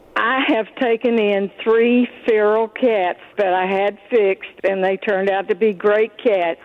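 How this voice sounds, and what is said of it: Brooklyn accent. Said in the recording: “I love your Brooklyn accent”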